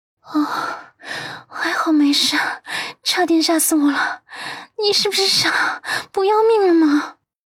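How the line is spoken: Tearful, choked up. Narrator (Chinese): 说着说着，他眼眶还红了

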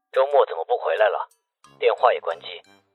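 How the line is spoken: Cool detached voice. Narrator (Chinese): 思南的声音隔着电话听不出是高兴还是不高兴，声音冷冷清清的

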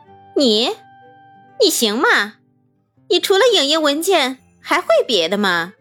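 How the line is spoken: Contemptuous. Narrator (Chinese): 王涵轻蔑地说

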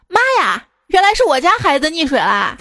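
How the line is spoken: Sudden shout, middle-aged woman. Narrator (Chinese): 一个拿着手机拍视频的大妈突然喊道

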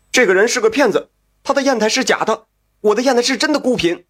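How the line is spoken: Angry shouting man. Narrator (Chinese): 张友良一见张友善，也不管三七二十一，先指着他大叫起来

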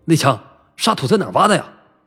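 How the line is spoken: Stern sharp question. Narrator (Chinese): 顾鹏厉声问

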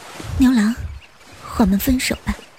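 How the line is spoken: Sighing. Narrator (Chinese): 织女叹了一口气

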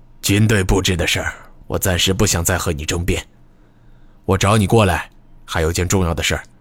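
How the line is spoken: Lowered voice. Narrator (Chinese): 这才压低了声音继续说道

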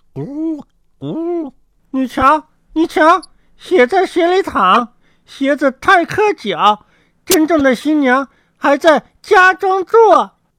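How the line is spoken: Birds calling. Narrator (Chinese): 两只小白鸽又在树上叫道

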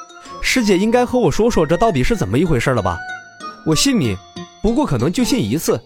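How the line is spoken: Half-smiling. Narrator (Chinese): 洛尘闻言似笑非笑道

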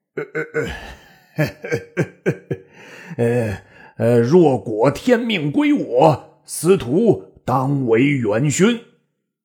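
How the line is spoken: Laughing. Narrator (Chinese): 卓笑曰

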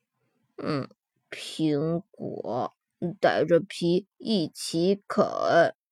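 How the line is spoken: Quiet. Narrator (Chinese): 比尔小声说

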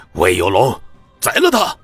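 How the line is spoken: Furious roar. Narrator (Chinese): 江胜龙气得直接吼道

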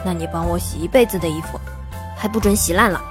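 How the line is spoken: Smiling murmur to oneself. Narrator (Chinese): 我不禁笑了，仿佛在说给自己听般的喃喃道

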